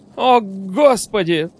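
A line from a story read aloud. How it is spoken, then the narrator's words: Howling cry. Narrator (Russian): взвыл Висконский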